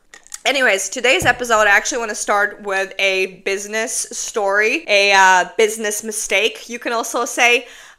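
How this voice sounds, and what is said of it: Congested, stuffy sick voice. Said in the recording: “my voice sounded like a dead seal. Still does a little bit. ... I'm stuffy a bit.”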